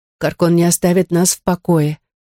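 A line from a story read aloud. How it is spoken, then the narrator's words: Weak voice. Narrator (Russian): произнесла Рокси слабым голосом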